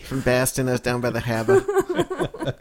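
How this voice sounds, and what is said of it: Put-on regional accent. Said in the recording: “Where'd you get that accent there, buddy?”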